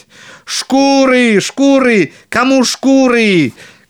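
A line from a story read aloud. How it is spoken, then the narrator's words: Shouting, big man. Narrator (Russian): кричал опять большой Клаус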